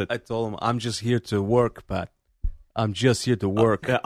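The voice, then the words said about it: Bruno Sammartino accent impression. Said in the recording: “I love the Bruno accent.”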